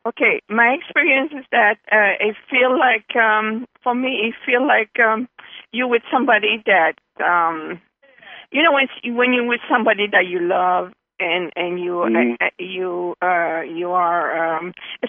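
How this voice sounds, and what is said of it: Speaks English with a foreign accent. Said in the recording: “Probably my accent or something. ... of course it's your accent. I love your accent”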